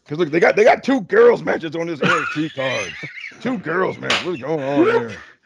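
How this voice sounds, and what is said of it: Imitates another person's voice. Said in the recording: “my Jim Cornette impersonation”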